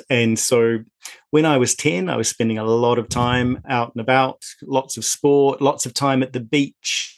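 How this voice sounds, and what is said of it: New Zealand accent. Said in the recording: “as you may tell from my accent, in New Zealand”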